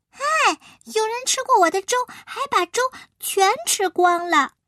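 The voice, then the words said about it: Tiny, small baby bear voice. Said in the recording (Chinese): “熊宝宝看着他的碗，用他小小的小声音说”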